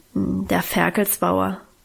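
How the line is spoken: Embarrassed low grumble. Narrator (German): brummte Guste noch verlegener, mit gesenktem Kopf

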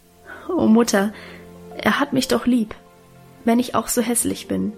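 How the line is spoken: Stammering, laughing and crying. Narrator (German): Guste stammelte lachend und weinend

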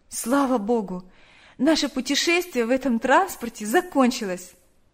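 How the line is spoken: Sighing. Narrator (Russian): вздохнула Наташа

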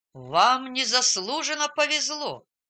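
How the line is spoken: Grumbled. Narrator (Russian): пробурчал он

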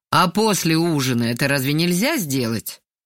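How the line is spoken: Displeased asking. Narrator (Russian): поинтересовался недовольным голосом

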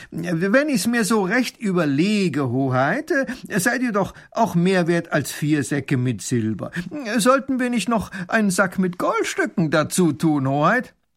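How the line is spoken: Loud call. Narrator (German): Baron von Raffini ruft laut

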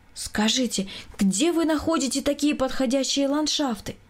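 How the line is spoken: Exclaiming woman. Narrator (Russian): воскликнула жена Николая Николаевича

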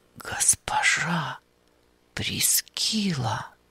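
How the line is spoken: Whispered. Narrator (Russian): прошептал он

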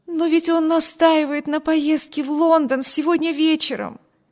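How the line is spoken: Exclaimed. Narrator (Russian): воскликнула Эми

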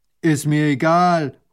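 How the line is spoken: Calling out. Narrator (German): ruft der Bauer

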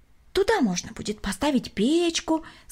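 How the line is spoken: Plain. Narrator (Russian): сказала мисс Селина

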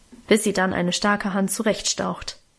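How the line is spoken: Grumbling. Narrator (German): brummte Auguste

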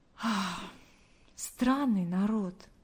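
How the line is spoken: Silent inner sigh. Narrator (Russian): мысленно вздохнула она

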